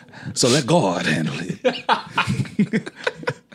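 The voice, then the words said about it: Imitated preacher voice. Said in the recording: “do the voice? ... he's a pastor. That's what all pastors sound like in my head.”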